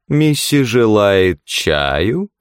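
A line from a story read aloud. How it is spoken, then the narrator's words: Smirking drawl. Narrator (Russian): протянул он, ухмыляясь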